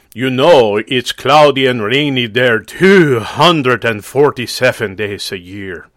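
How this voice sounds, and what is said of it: Put-on foreign accent. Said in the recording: “he doesn't have that accent. I took the liberty of adding it for effect.”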